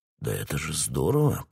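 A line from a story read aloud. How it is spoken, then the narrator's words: Stunned mumble. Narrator (Russian): потрясенно пробормотал он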